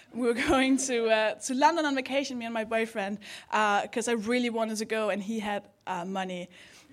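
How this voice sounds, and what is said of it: Danish accent in English. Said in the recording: “I'm from Denmark. That's the accent.”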